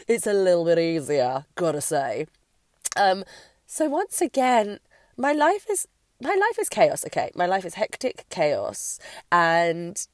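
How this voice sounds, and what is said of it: Slightly congested, recovering voice. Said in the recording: “my voice is pretty much on the mend now. I'm still a bit clogged up and a bit hay fevery”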